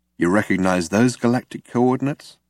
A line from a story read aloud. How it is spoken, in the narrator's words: said Zaphod